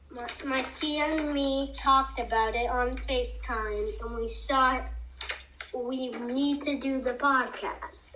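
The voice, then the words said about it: Voice sounds sick with a cold. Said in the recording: “I have a cold.”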